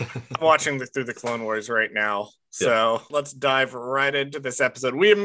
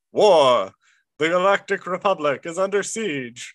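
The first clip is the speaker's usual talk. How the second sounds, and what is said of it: Imitates another person's voice. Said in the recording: “my best Tom Cannon impression.”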